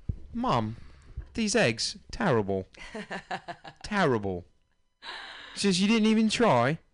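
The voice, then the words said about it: Imitates another person's British accent. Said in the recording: “Some of these little British kids come out with an accent already ... That's your Ringo accent”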